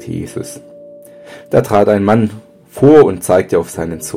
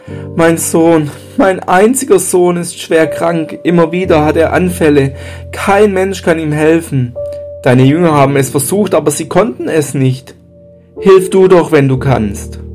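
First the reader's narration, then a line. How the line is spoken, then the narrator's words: Called out. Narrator (German): rief er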